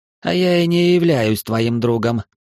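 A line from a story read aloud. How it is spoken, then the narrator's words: Scornful snort. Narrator (Russian): фыркнул он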